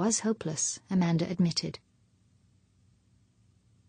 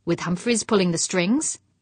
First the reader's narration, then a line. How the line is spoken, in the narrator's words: snapped